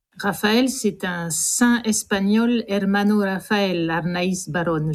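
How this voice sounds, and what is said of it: Spanish-accented pronunciation. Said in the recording (French): “vous avez l'accent”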